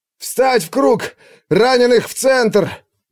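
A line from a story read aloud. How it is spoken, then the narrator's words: Shouting, voice breaking. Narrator (Russian): Брасит кричал срывающимся голосом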